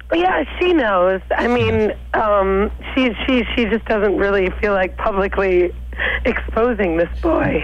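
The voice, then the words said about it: New York accent. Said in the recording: “I hear an accent there also ... I'm from New York”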